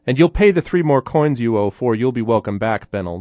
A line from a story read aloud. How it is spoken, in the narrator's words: the burly man shouted